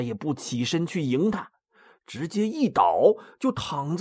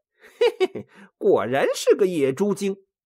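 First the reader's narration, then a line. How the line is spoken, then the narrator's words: Inner chuckling thought. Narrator (Chinese): 孙悟空心里暗笑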